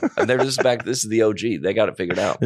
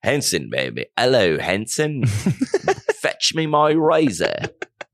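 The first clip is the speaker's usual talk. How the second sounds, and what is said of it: Put-on British accent. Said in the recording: “What accent is that? British?”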